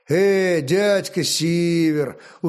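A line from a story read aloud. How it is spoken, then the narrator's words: Tired, smiling. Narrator (Russian): устало улыбнулся Олег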